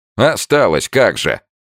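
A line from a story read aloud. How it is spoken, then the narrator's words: Angry. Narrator (Russian): зло сказал Панкратов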